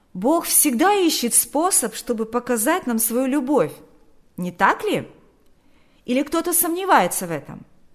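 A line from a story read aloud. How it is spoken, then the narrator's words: Calling after. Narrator (Russian): Берни крикнул вслед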